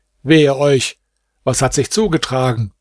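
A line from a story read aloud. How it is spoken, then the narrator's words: Question. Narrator (German): Vadhleddin fragte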